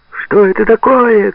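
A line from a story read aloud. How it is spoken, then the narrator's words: Male shouting. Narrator (Russian): кричал он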